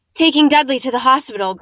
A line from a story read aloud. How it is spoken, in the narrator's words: growled Uncle Vernon